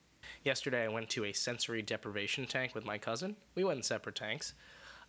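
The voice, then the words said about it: Hoarse voice. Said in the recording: “I apologize for my hoarse voice.”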